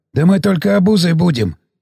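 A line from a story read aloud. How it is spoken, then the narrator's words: Enthusiastic, hoarse voice. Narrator (Russian): с энтузиазмом поддержал капитана сиплый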